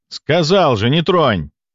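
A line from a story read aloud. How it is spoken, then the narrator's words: Barked sharply. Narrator (Russian): гаркнул я на бойца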